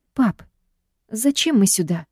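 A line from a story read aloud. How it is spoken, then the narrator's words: Confused. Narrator (Russian): растерянно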